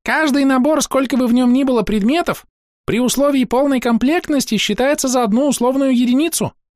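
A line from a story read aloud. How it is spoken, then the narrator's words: Squeaky cricket voice. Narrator (Russian): пискнул сверчок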